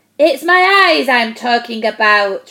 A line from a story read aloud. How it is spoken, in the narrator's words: roared the giant